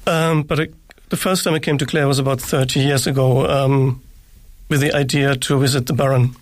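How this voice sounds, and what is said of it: German-accented English. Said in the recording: “that doesn't sound like a Clare accent... I believe you're from Germany... I think I probably never lose the accent.”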